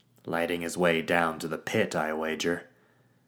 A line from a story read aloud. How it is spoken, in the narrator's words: Raxo said with a snort